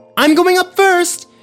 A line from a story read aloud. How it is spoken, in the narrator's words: yelled Parker